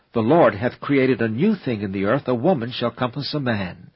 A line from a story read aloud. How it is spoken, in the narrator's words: The prophet Jeremiah exclaimed